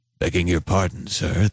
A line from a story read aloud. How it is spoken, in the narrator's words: said in a raspy voice